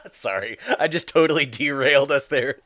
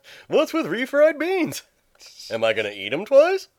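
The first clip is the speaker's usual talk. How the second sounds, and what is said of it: Bad Jerry Seinfeld impression. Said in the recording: “And suddenly I'm Jerry Seinfeld... Doing the voices... With my bad Seinfeld.”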